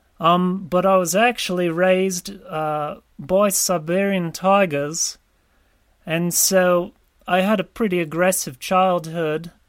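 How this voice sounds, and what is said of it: Noticeable non-local accent. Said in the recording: “a lot of people inquire about my accent as well”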